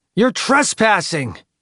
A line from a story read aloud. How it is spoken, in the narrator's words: yelled, though he was not sure she could hear him through the thick glass